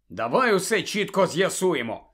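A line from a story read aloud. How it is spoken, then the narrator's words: Angry. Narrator (Ukrainian): сердито почав Гаррі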